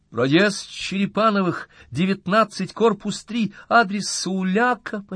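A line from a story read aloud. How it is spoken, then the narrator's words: Almost shouting. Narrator (Russian): почти закричала Настя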